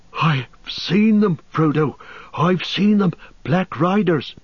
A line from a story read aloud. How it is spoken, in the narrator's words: he gasped